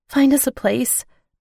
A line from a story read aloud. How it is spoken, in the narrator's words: I pleaded